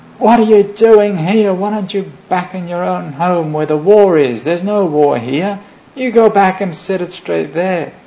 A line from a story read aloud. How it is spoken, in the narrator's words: somebody in the audience shouted at him